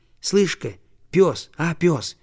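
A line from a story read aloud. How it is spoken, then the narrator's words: Soft call. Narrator (Russian): тихонько позвал он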